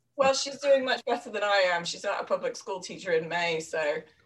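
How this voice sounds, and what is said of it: English accent. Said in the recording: “She's from England, if you can't tell by the accent.”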